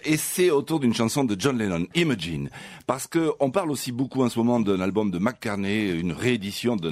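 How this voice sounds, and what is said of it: Perpignan southern French accent. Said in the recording (French): “j'ai l'accent de Perpignan ... Je parle avec l'accent de chez moi”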